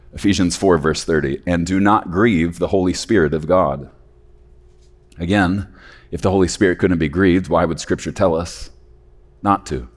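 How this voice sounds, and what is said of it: Dry, strained voice. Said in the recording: “my voice is a little bit dried out”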